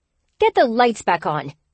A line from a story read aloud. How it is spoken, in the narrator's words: the woman yelled furiously